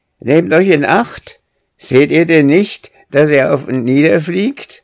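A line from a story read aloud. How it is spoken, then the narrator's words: Bird calling rushing past. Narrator (German): rief eine Lumme, indem sie vorüberbrauste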